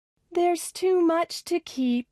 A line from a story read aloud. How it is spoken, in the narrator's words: sighed Millie